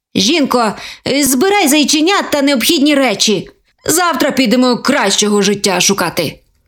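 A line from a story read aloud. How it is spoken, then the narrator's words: Grumbling. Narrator (Ukrainian): Буркнув до зайчихи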